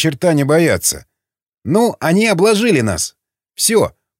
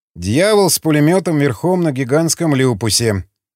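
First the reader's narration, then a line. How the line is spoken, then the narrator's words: Snort from aside. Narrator (Russian): хмыкнул стоявший в стороне Эмиль Казанов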